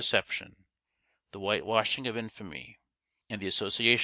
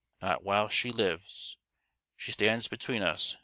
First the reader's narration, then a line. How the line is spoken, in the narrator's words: said Naomi